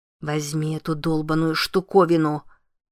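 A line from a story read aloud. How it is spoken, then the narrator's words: Growl. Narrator (Russian): прорычала Лиззи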